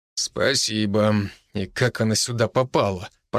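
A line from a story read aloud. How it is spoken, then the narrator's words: Muttered. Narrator (Russian): пробормотал Евгений Михайлович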